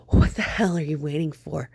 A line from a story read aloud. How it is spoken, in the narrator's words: he gasped out